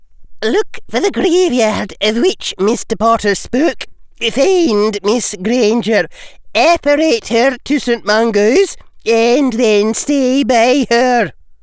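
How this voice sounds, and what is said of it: Crisp Scottish accent. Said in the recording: “she said crisply ... She now spoke in her crisp Scottish accent”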